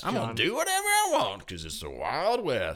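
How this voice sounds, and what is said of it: Wild West cowboy voice. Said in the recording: “I'm just copying you in a Western voice. ... Western.”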